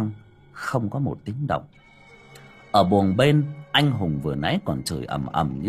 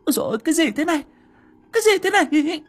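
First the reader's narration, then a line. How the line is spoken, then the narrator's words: Panicked woman's cry. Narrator (Vietnamese): tiếng vợ hoảng hốt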